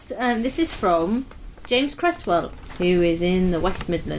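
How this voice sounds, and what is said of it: Usual voice. Nothing is said of it.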